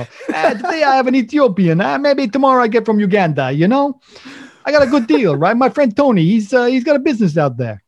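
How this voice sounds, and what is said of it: Put-on Italian accent. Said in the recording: “I haven't done an Italian accent in a while.”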